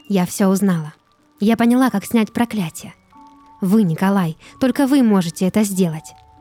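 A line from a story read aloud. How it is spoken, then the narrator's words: Joyful rapid chatter. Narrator (Russian): Радостно тараторила Ольга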